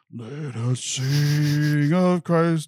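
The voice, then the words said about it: Exaggerated super deep singing voice. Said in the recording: “I'll do the, like, super deep voice.”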